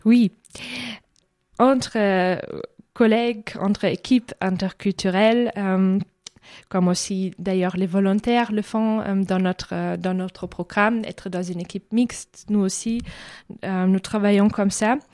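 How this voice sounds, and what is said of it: German accent in French. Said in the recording (French): “l'accent mystérieux. C'est un accent allemand.”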